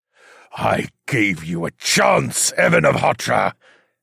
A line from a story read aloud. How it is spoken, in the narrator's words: the Demon King snarled